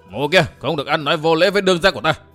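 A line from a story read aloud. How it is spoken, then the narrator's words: Loud shout. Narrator (Vietnamese): Tiêu Bát liền quát lớn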